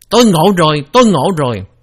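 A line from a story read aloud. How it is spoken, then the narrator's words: Excited shout. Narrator (Vietnamese): Một vị khác ở giữa chúng la lên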